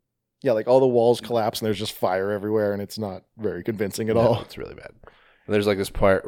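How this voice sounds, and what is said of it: Usual voice. Nothing is said of it.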